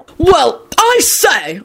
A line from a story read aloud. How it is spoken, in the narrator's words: Arthur bellowed furiously at Kingsley